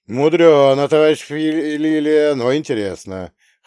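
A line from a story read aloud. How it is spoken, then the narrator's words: Amused snort. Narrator (Russian): хмыкнул Брежнев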